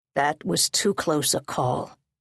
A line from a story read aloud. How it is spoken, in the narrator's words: Sano said